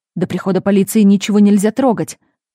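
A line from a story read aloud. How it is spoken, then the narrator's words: Angry gardener's hiss. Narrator (Russian): Садовник зло оскалился и прошипел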